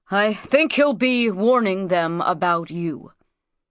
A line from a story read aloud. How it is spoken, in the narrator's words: said Nikonk gruffly